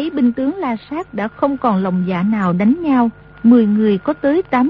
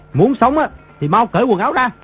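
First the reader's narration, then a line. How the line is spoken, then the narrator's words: Distant barked command. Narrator (Vietnamese): Trên đỉnh núi có người quát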